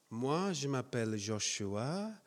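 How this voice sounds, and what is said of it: Slight foreign accent in French. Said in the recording (French): “J'ai un petit accent. ... C'est mignon, peut-être, mon accent ... Désolé pour mon petit accent.”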